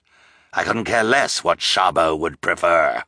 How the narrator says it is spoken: Olaf snarled

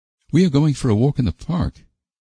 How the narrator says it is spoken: answered Anne

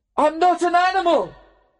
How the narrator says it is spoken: shouted

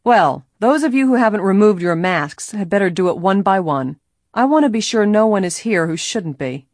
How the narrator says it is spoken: Maurice Hale announced in a commanding voice

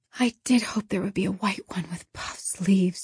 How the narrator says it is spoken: whispered disconsolately

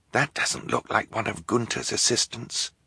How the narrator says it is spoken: Klaus whispered to his sisters

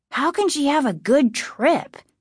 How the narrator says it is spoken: Casey asked sharply

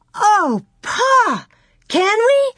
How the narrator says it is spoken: Laura cried

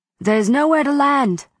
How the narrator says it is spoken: the pilot shouted

